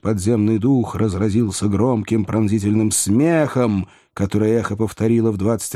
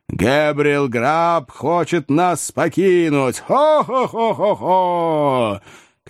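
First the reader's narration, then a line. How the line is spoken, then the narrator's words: Spirit's booming laughter. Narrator (Russian): подземный дух захохотал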